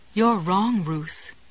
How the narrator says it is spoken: Goody responded calmly

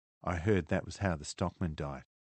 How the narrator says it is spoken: Ilsa said quietly

